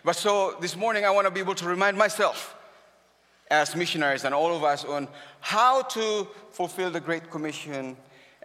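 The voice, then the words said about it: Filipino-accented English. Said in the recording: “my accent can be a hindrance. I'm a Filipino”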